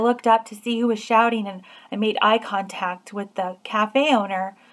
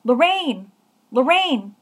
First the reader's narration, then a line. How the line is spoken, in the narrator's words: shout